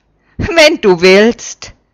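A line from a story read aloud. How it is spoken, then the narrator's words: Laughing. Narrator (German): lacht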